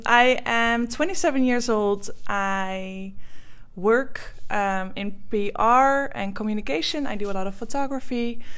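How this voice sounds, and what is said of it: Dutch accent. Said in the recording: “I am from the Netherlands, which you can maybe hear from my accent.”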